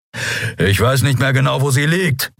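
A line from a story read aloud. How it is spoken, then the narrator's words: Growled. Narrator (German): knurrte er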